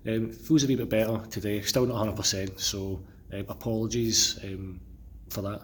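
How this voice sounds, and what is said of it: Slightly unwell-sounding voice. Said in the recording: “I'm feeling a wee bit unwell today. I don't know if you can hear it in my voice ... my voice had gone ... if I sound as if I'm unwell, it's because I am unwell”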